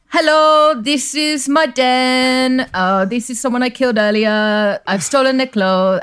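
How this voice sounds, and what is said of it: Put-on accent, not done well. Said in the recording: “I like that accent. ... It's not going very well.”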